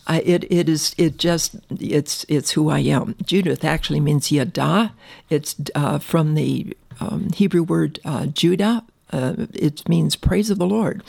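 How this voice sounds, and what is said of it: Excited, animated speaking voice. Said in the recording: “as you can probably tell by my voice, I'm really excited”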